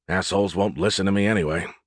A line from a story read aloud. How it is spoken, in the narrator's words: he added under his breath